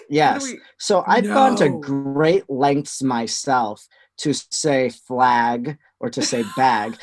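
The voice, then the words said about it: Wisconsin accent. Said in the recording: “I hear an accent with you. Is this a Wisconsin accent that I am picking up?”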